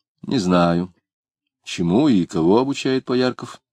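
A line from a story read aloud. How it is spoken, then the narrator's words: Very dry. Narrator (Russian): очень сухо сказал Самгин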